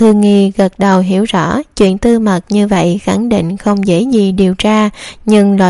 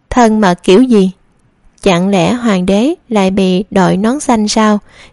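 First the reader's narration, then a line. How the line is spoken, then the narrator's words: Amused loud laughter. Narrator (Vietnamese): Tiêu Hoài bị biểu cảm của nàng làm cho buồn cười, cười lớn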